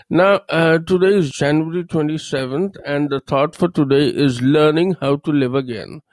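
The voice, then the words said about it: Low, sore-throated voice. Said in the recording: “I've got a little sore throat and my voice is a little low. ... I'm going to work a little harder for the pep in my voice and the speed of my speech.”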